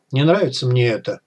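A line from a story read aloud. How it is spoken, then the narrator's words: Sighing. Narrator (Russian): вздохнул Бай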